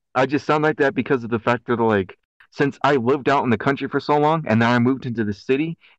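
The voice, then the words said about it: Country twang, somewhat Canadian-sounding. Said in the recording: “I have like this twang ... style of voice that's like that sounds like Canadian ... this country twang”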